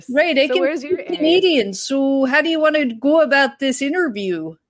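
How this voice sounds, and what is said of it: Exaggerated Canadian accent. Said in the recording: “speak Canadian ... you're speaking Ontario ... That's your East Coast accent”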